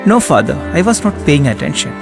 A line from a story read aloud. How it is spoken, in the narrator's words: she said